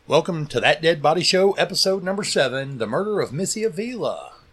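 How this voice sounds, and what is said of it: Put-on radio announcer voice. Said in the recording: “You like my radio voice?”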